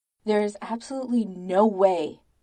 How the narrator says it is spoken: Tony says angrily

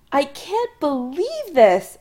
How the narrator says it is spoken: Adam exclaims

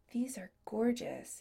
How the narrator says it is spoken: he murmured

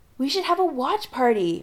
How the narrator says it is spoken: Megan exclaims

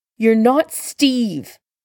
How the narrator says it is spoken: Bucky snapped

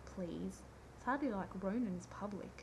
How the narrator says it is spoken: Rodney scoffed

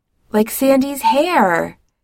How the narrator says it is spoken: Jim says brightly, smiling with child happiness

